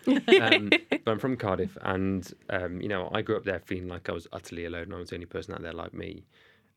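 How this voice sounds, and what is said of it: Thick Welsh accent. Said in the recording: “I'm from Cardiff, you can tell by my thick Welsh accent.”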